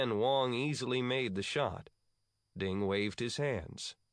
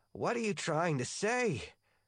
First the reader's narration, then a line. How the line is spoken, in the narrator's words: Wong asked, gasping